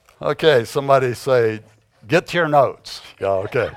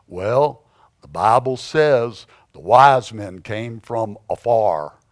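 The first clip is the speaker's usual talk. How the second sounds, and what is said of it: Heavy East Texas accent. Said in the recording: “in his heavy East Texas accent”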